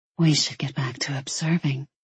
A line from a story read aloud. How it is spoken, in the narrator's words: she whispered